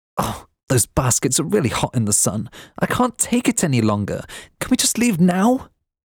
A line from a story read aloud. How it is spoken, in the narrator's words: begged